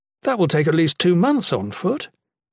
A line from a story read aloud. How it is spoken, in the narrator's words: Jen exclaimed incredulously